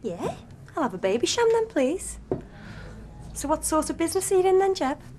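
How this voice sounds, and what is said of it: Liverpool accent. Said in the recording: “Liverpool. ... Most famous accent in the world.”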